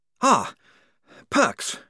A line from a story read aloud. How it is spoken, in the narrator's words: he panted